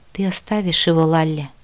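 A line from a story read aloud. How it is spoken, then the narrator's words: Calm. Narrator (Russian): спокойно произнес Хола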